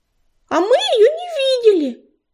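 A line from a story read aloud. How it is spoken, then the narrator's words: Squeaky voice. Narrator (Russian): пропищала белолапка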